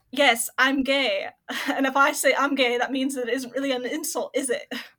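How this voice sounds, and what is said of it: Attempted regional accent, admittedly poor. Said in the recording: “very specific, I guess, accents that are from that region ... I don't know why I'm really trying to do the accent. I'm sure it's terrible compared to, like, the original.”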